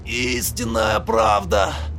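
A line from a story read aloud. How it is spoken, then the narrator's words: Breathed out. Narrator (Russian): выдохнул Режглотку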